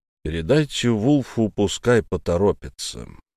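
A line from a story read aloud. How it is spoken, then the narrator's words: Soft gentle voice. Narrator (Russian): мягко сказал Болтон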